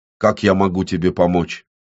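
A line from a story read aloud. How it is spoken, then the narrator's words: Firm question. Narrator (Russian): Порча твердым голосом спросила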